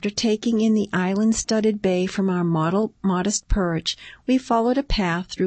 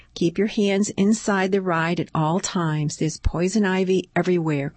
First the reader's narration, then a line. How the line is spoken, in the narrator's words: Kern said